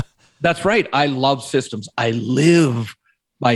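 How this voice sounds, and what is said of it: Usual voice. Nothing is said of it.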